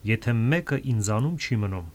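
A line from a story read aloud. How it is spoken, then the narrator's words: Plain. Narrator (Armenian): ասաց Քրիստոսը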